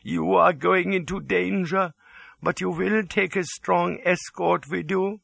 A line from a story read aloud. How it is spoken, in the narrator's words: quavered